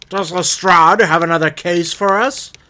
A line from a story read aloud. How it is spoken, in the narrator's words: Bell shouted